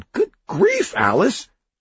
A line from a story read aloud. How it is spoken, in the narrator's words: Oliver yelped